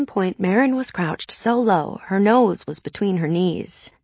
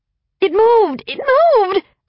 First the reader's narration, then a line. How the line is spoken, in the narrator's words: shrieked